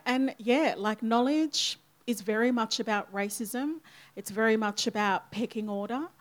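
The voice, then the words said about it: Broad Australian accent. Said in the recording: “I speak with a broad, you know, like, Aussie accent”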